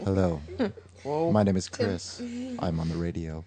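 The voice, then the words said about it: Exaggerated radio announcer voice. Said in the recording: “you get the radio voice going... is so different when he talks to the radio”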